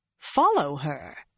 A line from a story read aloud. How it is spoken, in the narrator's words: Swan exclaimed, for the first time truly startled